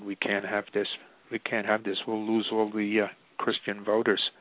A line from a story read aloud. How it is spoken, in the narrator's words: somebody whispered